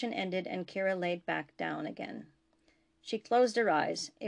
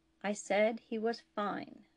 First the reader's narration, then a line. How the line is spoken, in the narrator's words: the captain repeated, more slowly this time